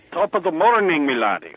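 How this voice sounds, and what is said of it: Terrible put-on Irish accent. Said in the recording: “we use our terrible Irish accents”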